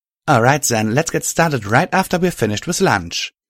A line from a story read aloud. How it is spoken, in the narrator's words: Violet said happily